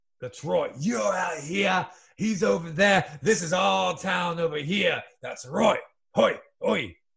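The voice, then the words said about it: Shifting put-on British-style accent. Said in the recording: “accent number three ... Oi, your accent just changed, mate ... your accent changed a good deal”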